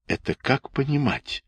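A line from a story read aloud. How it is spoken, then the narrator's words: Heated whisper. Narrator (Russian): горячо шептал ей Харченко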